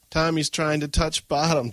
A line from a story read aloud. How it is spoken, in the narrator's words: Joy laughed mockingly